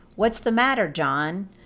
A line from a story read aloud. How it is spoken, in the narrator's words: Reynolds called out